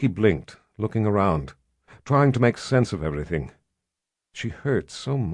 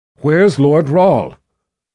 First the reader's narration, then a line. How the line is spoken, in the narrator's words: the shout echoing around the room